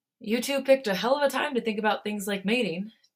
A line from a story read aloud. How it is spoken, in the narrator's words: Jin sighed with an affectionate smile